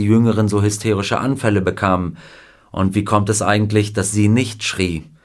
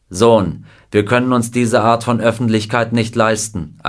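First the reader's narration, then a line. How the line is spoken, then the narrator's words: Angry explanation. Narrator (German): erklärte er mit rotem Gesicht, flackernden Augen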